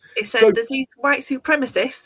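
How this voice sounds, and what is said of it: Poor put-on southern English accent. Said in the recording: “that's my terrible southern accent.”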